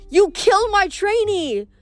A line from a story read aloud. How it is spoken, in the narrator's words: Kelly yelled